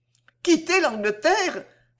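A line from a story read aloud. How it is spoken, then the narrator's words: Tearful cry. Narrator (French): s'écria-t-elle en fondant en larmes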